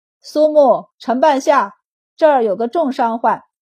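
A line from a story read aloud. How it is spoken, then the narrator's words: Calling out. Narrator (Chinese): 文天东冲里面喊了一声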